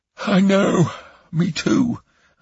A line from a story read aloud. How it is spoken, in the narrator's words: I yawned